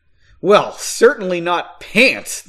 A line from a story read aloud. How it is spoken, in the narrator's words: the man scoffed